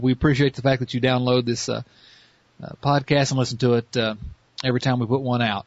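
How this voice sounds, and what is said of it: Southern American accent. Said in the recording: “this ridiculous Southern accent”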